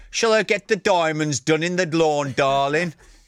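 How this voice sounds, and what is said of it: Attempted Birmingham accent, drifting southern. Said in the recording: “I was trying to do a Brummy accent there. I went a little bit southern as well.”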